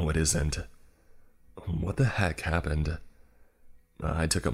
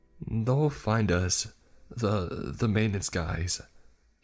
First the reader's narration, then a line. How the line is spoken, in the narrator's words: he stammered